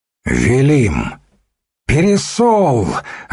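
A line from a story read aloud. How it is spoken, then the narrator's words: Shouted in unison. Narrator (Russian): одновременно выкрикнул Мышата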